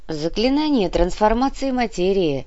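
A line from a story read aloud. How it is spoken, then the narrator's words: Lazy tone. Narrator (Russian): лениво сообщила Инга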